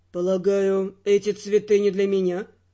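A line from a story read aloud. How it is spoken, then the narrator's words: Cold inquiry. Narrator (Russian): Холодно осведомился Эрл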